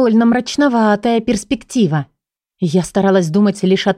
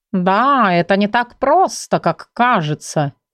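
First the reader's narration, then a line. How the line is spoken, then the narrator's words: Joyless snort, tiger. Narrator (Russian): невесело хмыкнул тигр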